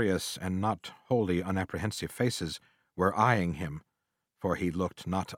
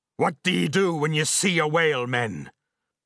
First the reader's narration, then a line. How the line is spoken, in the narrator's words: Vehemently pausing, he cried